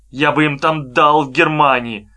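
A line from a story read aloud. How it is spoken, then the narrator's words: Sudden, through clenched teeth. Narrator (Russian): неожиданно сказал он сквозь зубы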